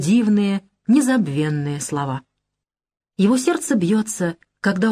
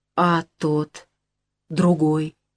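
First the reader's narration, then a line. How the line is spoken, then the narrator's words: Muffled question. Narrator (Russian): глухо спрашивает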